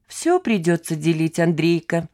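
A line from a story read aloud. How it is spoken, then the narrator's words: Cheerful. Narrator (Russian): весело сказала Лида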